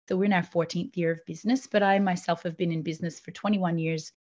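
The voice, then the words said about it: Mixed Canadian-Australian accent. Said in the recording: “originally from Canada. That's why the weird accent, which is, you know, mixed with Australian and Lithuanian and every other aspect that I have.”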